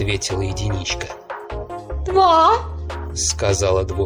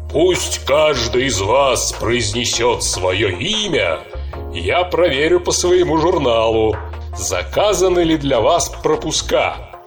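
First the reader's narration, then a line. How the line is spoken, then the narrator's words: Deep bass voice. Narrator (Russian): пробасил голос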